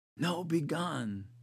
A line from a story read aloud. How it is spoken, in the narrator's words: Wally whispered automatically